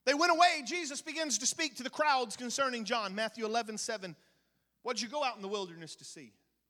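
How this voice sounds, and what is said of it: Very fast speech. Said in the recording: “I'm going to run through this about as fast as I can ... I'm going to say it so fast.”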